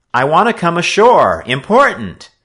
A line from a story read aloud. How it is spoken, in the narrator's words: Joe shouted out to him